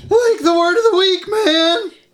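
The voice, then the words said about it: Shaggy cartoon character voice impression. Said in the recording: “Shaggy impersonation”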